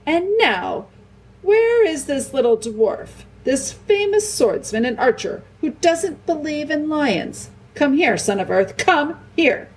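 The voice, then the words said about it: Much louder voice, hint of roar. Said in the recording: “in a much louder voice, with just a hint of roar in it ... the last word was no longer the hint of a roar, but almost the real thing”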